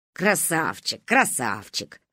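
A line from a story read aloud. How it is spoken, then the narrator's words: Amused snort. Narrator (Russian): хмыкнула Ба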